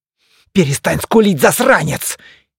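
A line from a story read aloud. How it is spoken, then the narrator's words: Sharp, angry. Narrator (Russian): Неожиданно чисто и зло впечатала она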